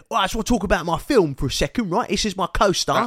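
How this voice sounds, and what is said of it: Imitated Cockney-style accent. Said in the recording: “He's Cockney all of a sudden. ... like a public schoolboy's regret accent”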